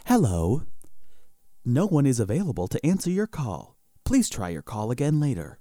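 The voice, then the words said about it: Imitates an automated phone message voice. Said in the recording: “this, like, phone voice would come on ... that was a really great impression”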